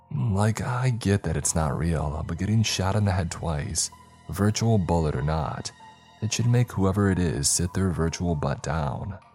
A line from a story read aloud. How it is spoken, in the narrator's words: he says with a chuckle